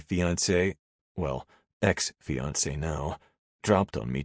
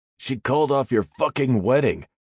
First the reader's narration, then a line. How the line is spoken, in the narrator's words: he nearly shouted